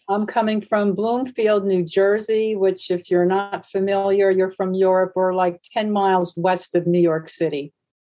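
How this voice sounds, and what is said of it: American East Coast accent. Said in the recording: “I can hear it in your accent. You've got that East Coast sound.”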